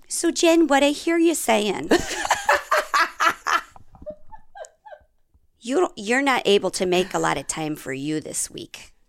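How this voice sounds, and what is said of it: Impression of a sweet coach. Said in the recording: “I'll do my impression. ... That sounds exactly like her.”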